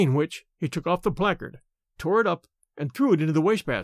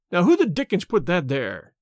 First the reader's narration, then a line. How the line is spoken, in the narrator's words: he cried angrily